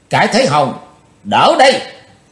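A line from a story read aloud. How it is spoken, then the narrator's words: Shouting. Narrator (Vietnamese): Chí Tôn đàng thét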